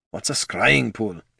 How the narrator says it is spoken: muttered

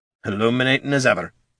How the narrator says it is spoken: Gorm muttered with a deep scowl

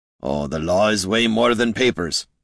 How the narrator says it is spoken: growled Gorm

